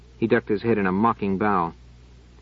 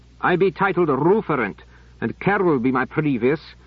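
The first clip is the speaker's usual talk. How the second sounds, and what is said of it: Thick rural accent, rolled throaty R's. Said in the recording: “His accent became noticeably more Hamish. His R's rolled throatily.”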